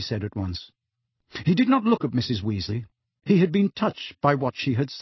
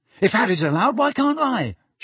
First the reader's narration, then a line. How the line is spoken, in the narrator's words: shouted Ron